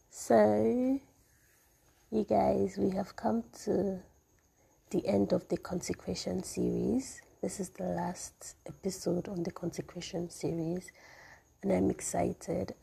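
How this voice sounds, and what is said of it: Voice still recovering from illness. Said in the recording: “I'm sorry that my voice sounds like this. I'm just recovering”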